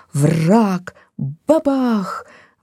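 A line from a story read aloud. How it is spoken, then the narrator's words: Exclaimed. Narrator (Russian): воскликнула она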